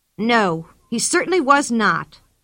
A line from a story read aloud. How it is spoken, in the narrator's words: said the girl crossly